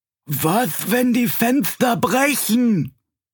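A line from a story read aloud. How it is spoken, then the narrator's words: Whining lament. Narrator (German): jammerte Schlemmerbuck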